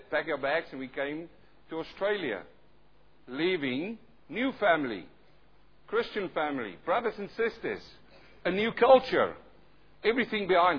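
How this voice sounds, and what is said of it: Thick South African-sounding accent. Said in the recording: “I've got my own accent, though some say it's really thick South African. Others say it's German. ... Some people think I'm a Russian.”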